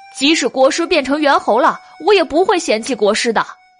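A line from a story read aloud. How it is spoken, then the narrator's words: Loud. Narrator (Chinese): 酸泥大声的说道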